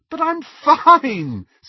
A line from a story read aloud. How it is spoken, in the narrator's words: said Lily, still giggling